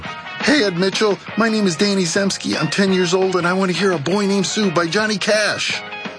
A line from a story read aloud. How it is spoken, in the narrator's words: I muster up my energy and yell